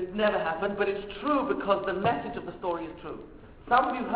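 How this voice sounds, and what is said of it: Usual voice. Nothing is said of it.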